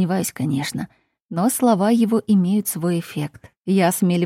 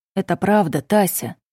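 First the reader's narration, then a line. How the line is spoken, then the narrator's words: Serious tone. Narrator (Russian): продолжает Артур серьезным тоном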